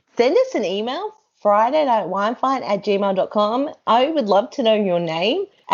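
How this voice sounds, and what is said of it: Australian accent. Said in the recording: “I think it's the Australian accent.”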